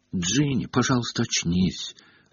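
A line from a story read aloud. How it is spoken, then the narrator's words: Desperate whisper. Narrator (Russian): отчаянно шептал Гарри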